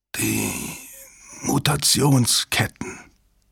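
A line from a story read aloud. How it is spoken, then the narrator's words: Croaking. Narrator (German): krächzte Strathmore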